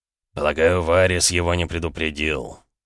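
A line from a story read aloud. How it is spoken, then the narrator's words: Through gritted teeth. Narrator (Russian): процедил Эд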